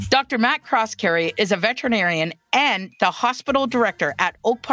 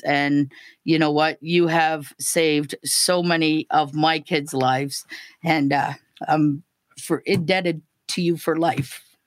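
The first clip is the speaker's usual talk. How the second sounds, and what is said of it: Slightly emotional voice. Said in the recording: “I'm sure you can tell I get a little emotional”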